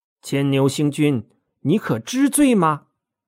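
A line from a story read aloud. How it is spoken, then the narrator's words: Angry. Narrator (Chinese): 怒气冲冲的说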